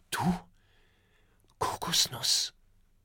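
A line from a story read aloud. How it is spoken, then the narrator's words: Whispered. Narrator (German): flüstert Oskar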